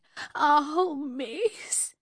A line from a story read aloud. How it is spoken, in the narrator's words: She moaned